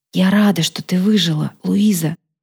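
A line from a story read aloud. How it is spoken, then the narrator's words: Whisper in ear. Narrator (Russian): Фатия прошептала мне на ухо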